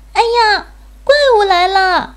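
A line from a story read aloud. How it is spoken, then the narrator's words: Scream. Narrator (Chinese): 小兔子尖叫了一声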